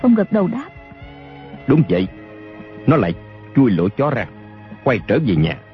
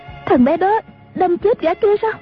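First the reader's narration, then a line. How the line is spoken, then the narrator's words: Shrieking, terrified question. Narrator (Vietnamese): A Châu rú lên một tiếng, kinh hãi hỏi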